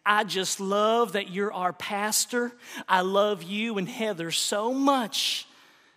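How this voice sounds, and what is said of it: Southern US accent. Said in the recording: “very Southern ... said with her Southern accent”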